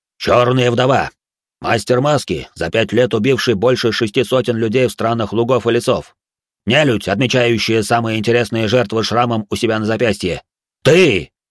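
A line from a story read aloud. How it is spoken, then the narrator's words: Furious bark. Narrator (Russian): Хару рявкнул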